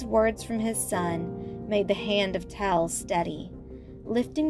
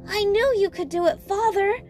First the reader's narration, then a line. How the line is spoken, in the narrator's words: shouted Jimmy